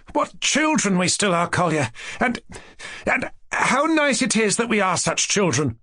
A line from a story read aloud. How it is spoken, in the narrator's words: cried at last, joyfully